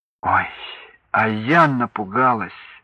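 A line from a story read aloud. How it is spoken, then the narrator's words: Relieved exhale, young woman. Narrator (Russian): с облегчением выдохнула девушка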